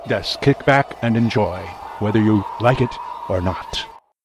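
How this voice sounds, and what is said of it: Spanish-British accent, Dracula-like voice. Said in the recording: “I am not from Spain, although I seem to have a Spanish-British accent. And I am not Count Dracula, although I am mistaken for him several times.”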